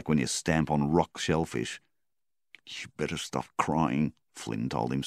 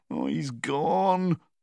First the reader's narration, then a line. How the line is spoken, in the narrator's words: he moaned